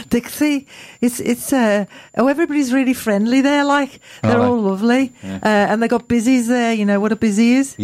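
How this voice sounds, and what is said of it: Put-on Geordie accent. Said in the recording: “why you're doing Dixie. A Geordie accent about this ... why are you telling me in a Geordie accent?”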